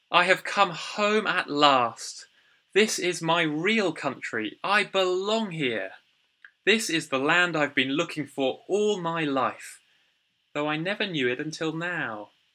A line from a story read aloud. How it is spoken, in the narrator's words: He cried